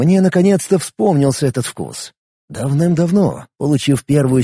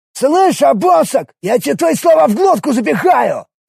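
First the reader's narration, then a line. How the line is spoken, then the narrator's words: Yelling. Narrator (Russian): заорал некто Кортич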